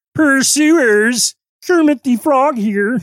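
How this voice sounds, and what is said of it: Poor Kermit the Frog voice impression. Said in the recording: “terrible, terrible, terrible impersonation”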